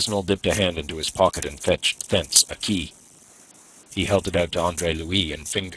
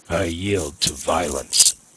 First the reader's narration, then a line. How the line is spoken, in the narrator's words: he said, showing his teeth like a snarling dog